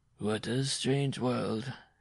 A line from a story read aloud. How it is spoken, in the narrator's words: he muttered